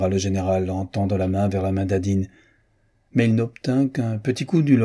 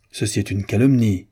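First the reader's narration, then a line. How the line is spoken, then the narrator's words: General exclaiming. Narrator (French): s'écria le général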